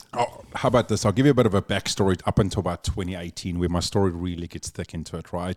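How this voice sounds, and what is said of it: South African accent. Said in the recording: “the accent, but that's the famous South African accent.”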